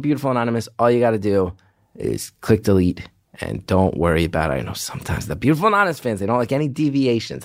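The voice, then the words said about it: Tired, exhausted-sounding voice. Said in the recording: “you guys can hear it in my voice ... Gethard sounds exhausted this week. That is true. I am very tired ... I am so tired”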